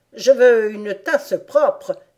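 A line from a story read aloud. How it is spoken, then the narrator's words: Sudden exclamation. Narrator (French): s'écria tout à coup le chapelier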